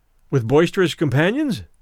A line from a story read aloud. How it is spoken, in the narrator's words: in my cheerfulest tone